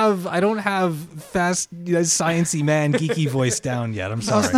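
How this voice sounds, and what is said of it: Usual voice. Nothing is said of it.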